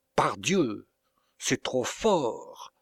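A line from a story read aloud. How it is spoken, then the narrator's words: Exclaimed. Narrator (French): s'écria-t-il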